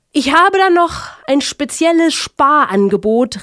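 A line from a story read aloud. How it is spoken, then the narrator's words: Call through megaphone. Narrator (German): rief er durch ein eilends herbeigeholtes Megafon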